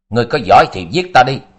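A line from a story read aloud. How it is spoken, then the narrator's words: Hateful shout. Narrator (Vietnamese): Nhị tiên tử mắt rực vẻ căm hận quát tiếng nói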